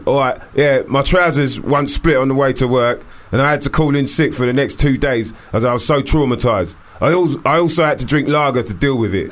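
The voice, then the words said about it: Put-on East London Stepney accent. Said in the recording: “I gave you a bit of a Stepney accent”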